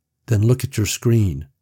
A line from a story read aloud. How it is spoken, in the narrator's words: Tommy said, his voice flat